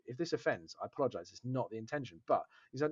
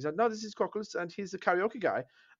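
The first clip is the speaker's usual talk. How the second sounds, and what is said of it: Imitated German accent. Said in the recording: “do an impersonation with your German accent”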